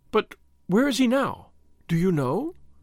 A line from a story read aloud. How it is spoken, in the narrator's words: she asked eagerly